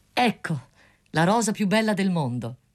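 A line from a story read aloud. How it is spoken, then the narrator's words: Student exclaiming. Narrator (Italian): esclamò lo studente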